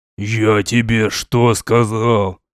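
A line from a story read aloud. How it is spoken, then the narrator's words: Growling. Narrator (Russian): Прорычал великоша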